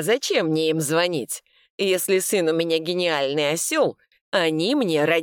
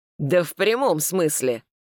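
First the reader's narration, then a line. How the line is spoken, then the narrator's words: Father's gruff bark. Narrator (Russian): рявкнул батя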